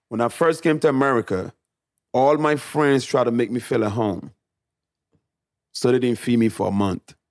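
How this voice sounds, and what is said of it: Noticeable foreign accent. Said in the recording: “I was shocked at the way you spoke ... this guy's got like a... ... brings out my accent even more”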